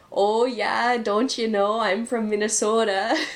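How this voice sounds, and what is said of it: Exaggerated Minnesota accent. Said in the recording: “depending on where you go in Minnesota, you'll hear the ... There it is.”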